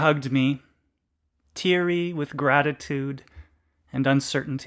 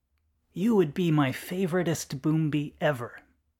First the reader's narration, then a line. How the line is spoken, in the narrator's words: Marjoie whispered in Eisnik's ear